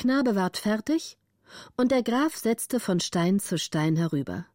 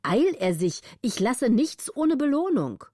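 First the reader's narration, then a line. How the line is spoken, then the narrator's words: Contemptuous call. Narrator (German): rief der Graf mit großer Herabschätzung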